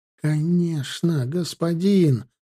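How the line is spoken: Joyful agreement. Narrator (Russian): радостно закивал

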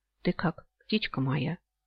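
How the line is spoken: Whisper. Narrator (Russian): шепнул он

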